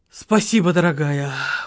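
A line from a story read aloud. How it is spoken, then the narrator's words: Breathed out. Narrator (Russian): выдохнул Леня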